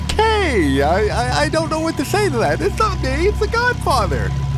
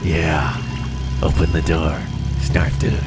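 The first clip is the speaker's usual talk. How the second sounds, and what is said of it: Godfather impression sounding like Dirty Harry. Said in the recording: “your Godfather kind of sounds like Dirty Harry doing a Godfather impression.”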